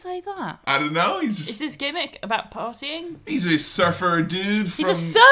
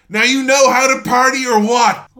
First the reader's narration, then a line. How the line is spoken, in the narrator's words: just pure adrenaline lets this very peculiar phrase out of his mouth as he screams